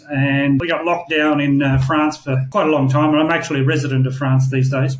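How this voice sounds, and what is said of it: Australian accent. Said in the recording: “my accent obviously is not European or American. I'm Australian.”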